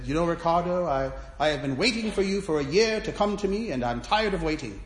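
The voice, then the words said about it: Attempted British accent. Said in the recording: “he's British, I'm going to attempt a British accent”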